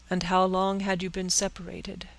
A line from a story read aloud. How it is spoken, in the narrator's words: asked the president